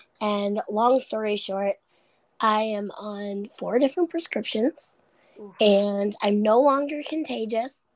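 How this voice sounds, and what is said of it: Hoarse, sick-sounding voice. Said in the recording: “losing my voice ... I still sound horrible”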